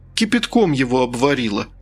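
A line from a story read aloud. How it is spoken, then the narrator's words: Sobbing. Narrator (Russian): всхлипнула я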